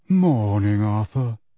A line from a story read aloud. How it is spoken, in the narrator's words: he said in a sepulchral voice